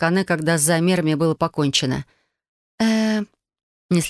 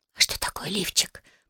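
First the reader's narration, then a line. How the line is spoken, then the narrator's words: Whisper. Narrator (Russian): прошептала Юми через приоткрытую дверцу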